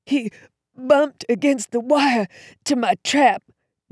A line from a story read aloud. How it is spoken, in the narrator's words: Jasper said, gasping for air